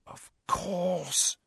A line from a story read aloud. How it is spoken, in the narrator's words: she breathed